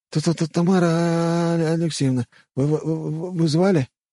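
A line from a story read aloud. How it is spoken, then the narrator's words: Stammering question. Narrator (Russian): запинаясь, спросил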